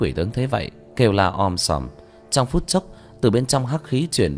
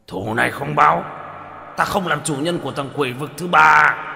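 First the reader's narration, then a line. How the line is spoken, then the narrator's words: Hate-filled howl. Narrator (Vietnamese): tiếng gào tràn đầy cừu hận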